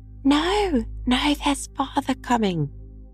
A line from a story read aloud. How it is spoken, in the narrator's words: cried the two young Cratchits